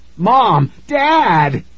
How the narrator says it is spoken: Nikki screamed

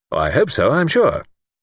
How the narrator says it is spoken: Luke said cheerfully

